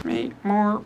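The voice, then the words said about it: Bad robot voice. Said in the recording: “That's a terrible robot voice.”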